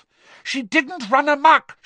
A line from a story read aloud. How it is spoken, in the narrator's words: shouted Hermione